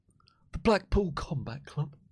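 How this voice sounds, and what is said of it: Soft, reserved imitation of another person's voice. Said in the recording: “This is my William Regal impression. ... It's a bit soft. It's a bit reserved.”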